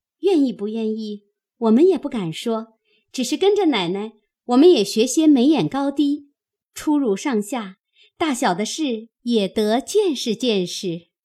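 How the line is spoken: Laughing. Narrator (Chinese): 红玉笑道

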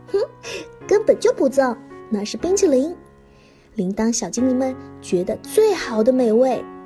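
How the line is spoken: Laughing. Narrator (Chinese): 菠萝大笑着说

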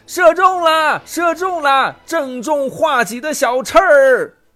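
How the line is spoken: Loud shout. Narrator (Chinese): 军士高声叫道

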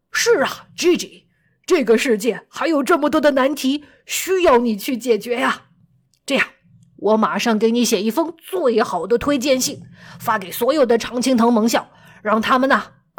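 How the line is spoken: Calling out. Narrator (Chinese): 劳伦斯也叫道

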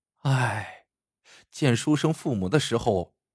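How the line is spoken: Sighing. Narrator (Chinese): 连娇 不由得直叹气

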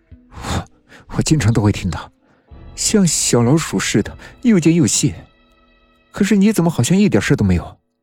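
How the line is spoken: Bitter laugh. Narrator (Chinese): 王亮一脸苦涩的笑道

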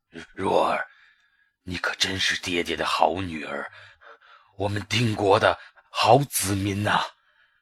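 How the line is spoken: Low voice. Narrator (Chinese): 低声说

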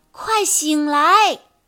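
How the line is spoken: Shouting. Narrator (Chinese): 安娜的喊声

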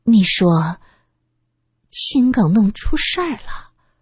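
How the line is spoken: Trembling voice. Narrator (Chinese): 苏三的声音微微的发颤

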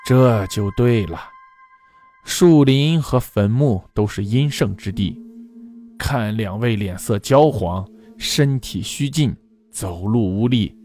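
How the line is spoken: Sighing. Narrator (Chinese): 道士叹口气说道

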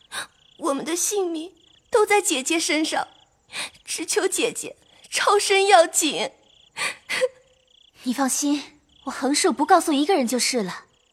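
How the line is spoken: Crying, pleading. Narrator (Chinese): 思琪 苦求，哭道

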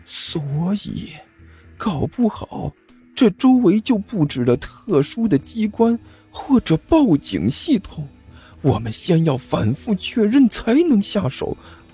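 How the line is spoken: Hushed voice. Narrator (Chinese): 阿巴压低声音说道

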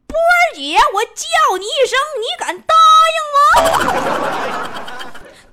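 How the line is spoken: Unhurried loud shout. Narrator (Chinese): 这个三炮…不紧不慢…大声喊了一句

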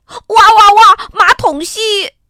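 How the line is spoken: Howling in pain. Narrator (Chinese): David 的胳膊肘被砰的撞了一下，他嚎叫起来

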